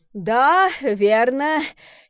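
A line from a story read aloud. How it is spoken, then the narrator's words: Relieved exhale. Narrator (Russian): с облегчением выдохнул Горацио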